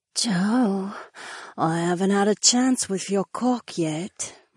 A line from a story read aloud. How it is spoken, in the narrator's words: my blonde wife whispered into my ear